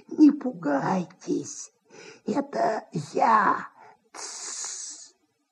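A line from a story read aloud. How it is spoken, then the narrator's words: Nasal, hissing whisper. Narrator (Russian): В гнусавом шепоте, похожем на сковородное шипение, голос антрепренера Индюкова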